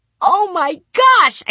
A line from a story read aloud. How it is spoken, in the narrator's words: I squealed